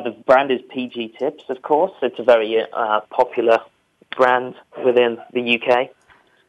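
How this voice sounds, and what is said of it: English accent. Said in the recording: “I think you can probably tell from my accent where I'm from ... the answer is not Australia, which I do sometimes get”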